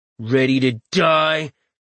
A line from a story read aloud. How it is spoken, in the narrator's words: The archer turned high combat cleric growled